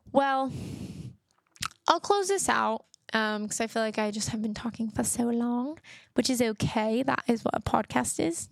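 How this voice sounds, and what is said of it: Fake British accent. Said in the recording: “my fake British accent”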